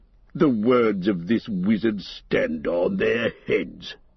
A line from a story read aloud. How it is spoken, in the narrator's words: he growled